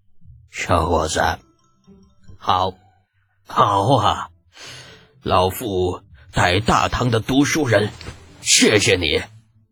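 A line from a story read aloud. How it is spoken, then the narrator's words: Smiling, full of praise. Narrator (Chinese): 老孔笑眯眯的赞不绝口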